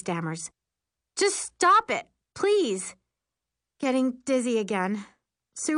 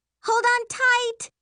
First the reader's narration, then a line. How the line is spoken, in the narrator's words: Mary yells